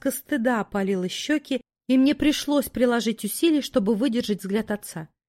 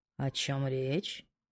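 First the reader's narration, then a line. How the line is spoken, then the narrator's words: Quiet question. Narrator (Russian): тихо поинтересовался Кай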